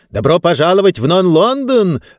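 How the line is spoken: Joyful exclamation, strange man. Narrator (Russian): радостно воскликнул этот странный человек

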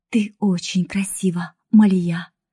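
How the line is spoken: Whisper. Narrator (Russian): прошептала она

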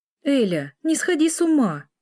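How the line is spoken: Heated exclamation. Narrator (Russian): воскликнула Лиля в горячах

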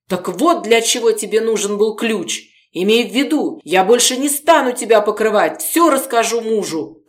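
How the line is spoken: Shouting. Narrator (Russian): кричала Регина

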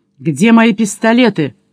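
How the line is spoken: Shout. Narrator (Russian): крикнул

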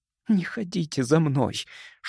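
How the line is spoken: Whispered request. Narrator (Russian): шепотом попросила она

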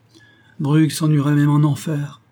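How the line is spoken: Sighed. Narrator (French): soupira

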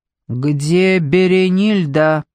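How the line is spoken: Drawling low interruption. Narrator (Russian): Фарук прервал прокурора своим тягучим низким голосом

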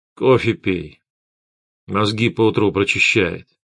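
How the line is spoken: Displeased mutter. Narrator (Russian): все тем же недовольным тоном пробормотал Гессер

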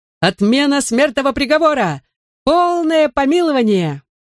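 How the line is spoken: Bellowed singing at full voice. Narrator (Russian): во все горло заорала песню

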